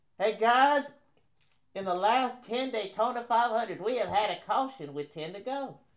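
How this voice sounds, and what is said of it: Imitates another person's voice. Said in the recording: “my Larry Mack impersonation ... that was not good”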